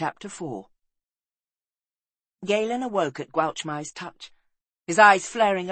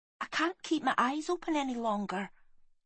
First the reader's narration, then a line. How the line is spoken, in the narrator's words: whispered Gwalchmai